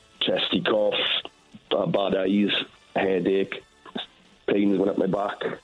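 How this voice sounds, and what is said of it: Ill-sounding voice. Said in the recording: “you sound ill”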